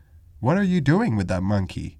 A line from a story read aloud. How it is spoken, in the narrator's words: he exclaimed